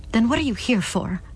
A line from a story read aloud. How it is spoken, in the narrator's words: Clara begged